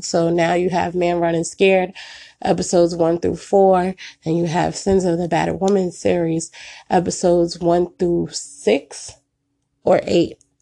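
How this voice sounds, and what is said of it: Sick voice from a cold. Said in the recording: “please forgive my voice. I am fighting a cold, what I believe is the flu”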